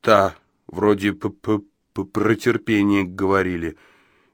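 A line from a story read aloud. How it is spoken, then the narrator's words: Barely audible, halting. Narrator (Russian): еле слышно, запинаясь, выдавил он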